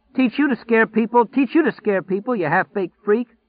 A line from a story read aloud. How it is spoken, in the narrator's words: calling back hysterically over his shoulder